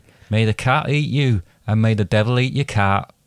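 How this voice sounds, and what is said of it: Attempted Irish accent. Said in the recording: “Do you want to practice your Irish accent?”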